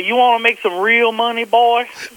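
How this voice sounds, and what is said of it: Thick Texas accent. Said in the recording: “he said it in a very Texas accent ... a thick accent ... he talked like this”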